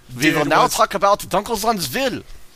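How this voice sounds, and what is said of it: Bad put-on German accent. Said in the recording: “It's a horrible German accent.”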